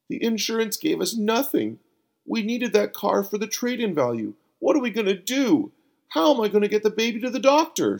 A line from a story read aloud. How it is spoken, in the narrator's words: cried